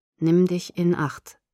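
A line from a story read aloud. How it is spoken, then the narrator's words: Flat, threatening. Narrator (German): Es klang tonlos und drohend, als er sagte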